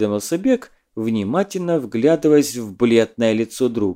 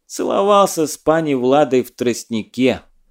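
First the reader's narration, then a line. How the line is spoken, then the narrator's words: Haughty laughing. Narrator (Russian): надменно засмеялся Чагука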